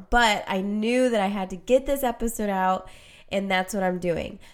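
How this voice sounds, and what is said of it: Congested, stuffy-nosed voice. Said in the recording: “As you can tell, most likely, I have a cold right now, so I'm very, very congested.”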